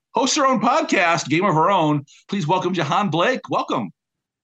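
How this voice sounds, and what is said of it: Polished radio announcer voice. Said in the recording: “in that perfect radio voice.”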